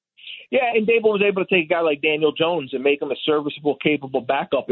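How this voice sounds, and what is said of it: Slight Philadelphia accent. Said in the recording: “am I detecting some Philly in that accent a little bit?”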